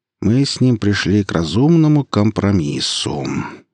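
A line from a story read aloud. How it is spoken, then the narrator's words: Drawling, suppressed fury. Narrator (Russian): протянул Вадим, сдерживая яростные порывы при упоминании имени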